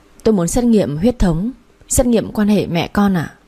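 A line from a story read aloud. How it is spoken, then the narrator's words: Trembling voice. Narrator (Vietnamese): Tôi run run bảo bác sĩ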